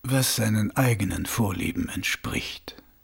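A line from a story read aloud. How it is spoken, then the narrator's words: Quiet. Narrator (German): sagte Mumm leise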